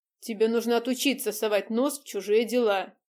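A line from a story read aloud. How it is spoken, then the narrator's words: Stern father. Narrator (Russian): строго сказал отец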